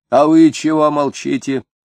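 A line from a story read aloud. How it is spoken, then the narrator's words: Stern shout. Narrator (Russian): строго крикнул Фроленков на Хромова и Егерева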